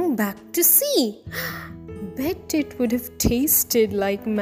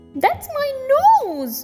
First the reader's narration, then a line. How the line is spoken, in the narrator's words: Shrew squeaked